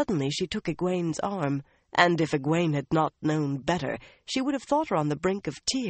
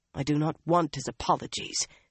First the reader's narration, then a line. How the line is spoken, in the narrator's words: Avienda muttered